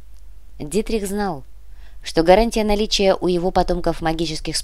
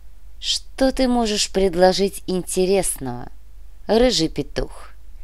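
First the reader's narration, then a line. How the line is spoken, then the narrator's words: Even-voiced question. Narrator (Russian): поинтересовалась матушка ровным голосом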